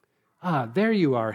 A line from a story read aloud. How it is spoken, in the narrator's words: he cried